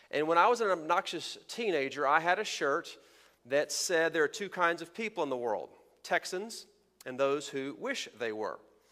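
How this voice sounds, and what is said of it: Texan accent. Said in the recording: “by my accent ... you may have figured out I am from Texas”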